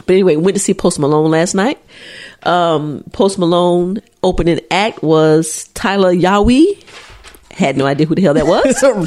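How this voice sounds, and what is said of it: Nasal, congested voice. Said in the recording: “I sound a little nasally ... I'm trying to catch a cold”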